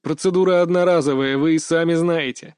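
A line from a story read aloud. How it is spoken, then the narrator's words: Laughing. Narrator (Russian): рассмеялся я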